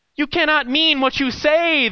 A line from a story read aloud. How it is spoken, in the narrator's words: shrieked